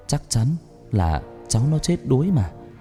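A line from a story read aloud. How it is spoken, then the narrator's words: Old woman muttering. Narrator (Vietnamese): Bà Thoa miệng lẩm bẩm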